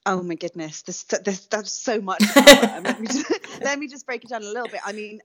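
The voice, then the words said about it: British accent. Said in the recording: “people can hear your accent. You're from the UK”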